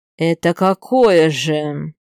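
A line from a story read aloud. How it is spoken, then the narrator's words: Hoarse. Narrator (Russian): Сиплю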